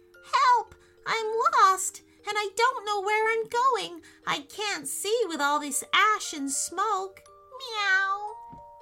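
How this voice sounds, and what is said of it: Small, little creature voice. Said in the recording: “said in a little voice”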